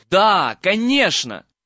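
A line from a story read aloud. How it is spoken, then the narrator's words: Loud. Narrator (Russian): громко сказал Гарри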